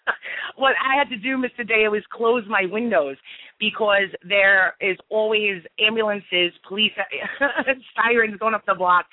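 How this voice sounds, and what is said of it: Brooklyn New York accent. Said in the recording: “if you can tell by my accent, from Brooklyn, New York. ... Of course, Brooklyn.”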